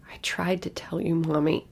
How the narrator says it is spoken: she whimpered

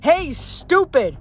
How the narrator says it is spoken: he yelled

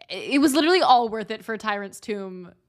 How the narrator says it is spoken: Reyna laughing

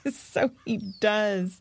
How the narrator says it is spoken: chuckled Annalise

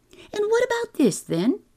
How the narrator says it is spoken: he exclaimed

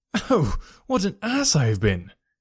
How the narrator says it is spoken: I exclaimed

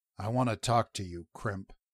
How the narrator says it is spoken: Rin said quietly

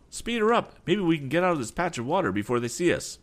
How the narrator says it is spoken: cried Tom

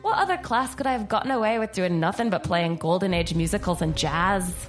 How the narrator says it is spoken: She laughed to herself

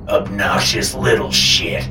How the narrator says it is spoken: Papa snarled

